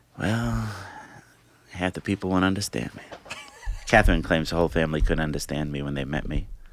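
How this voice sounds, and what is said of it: New York Italian accent. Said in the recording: “New York Italian accent”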